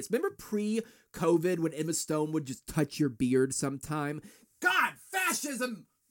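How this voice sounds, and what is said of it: Yelling. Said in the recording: “I'm yelling”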